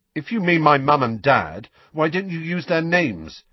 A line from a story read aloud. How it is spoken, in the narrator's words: said Harry loudly